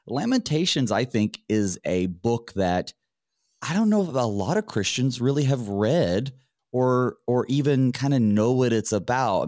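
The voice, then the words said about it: Slightly hoarse, sick-sounding voice. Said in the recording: “My voice is still a little under the weather”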